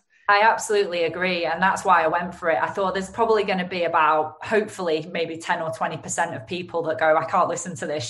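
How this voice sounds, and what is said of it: Lancashire English accent. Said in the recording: “my Lancashire accent ... She's a nightmare with her accent.”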